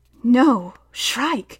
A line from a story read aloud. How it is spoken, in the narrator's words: whispered Hester